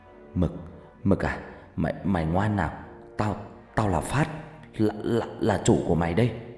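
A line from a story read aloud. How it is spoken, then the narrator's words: Trembling voice. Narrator (Vietnamese): giọng run run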